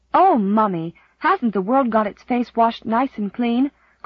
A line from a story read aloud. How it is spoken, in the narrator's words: cried Di